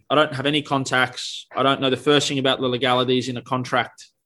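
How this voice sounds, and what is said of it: Australian accent. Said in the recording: “I've got an Australian accent”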